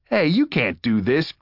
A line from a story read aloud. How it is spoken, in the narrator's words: Greg sputtered loudly